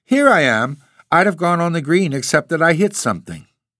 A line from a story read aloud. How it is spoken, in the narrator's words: she called cheerfully